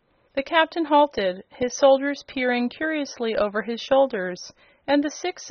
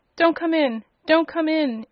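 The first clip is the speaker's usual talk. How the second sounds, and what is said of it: Terrified yelling character voice. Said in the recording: “yelled the Boolooroo in a terrified voice.”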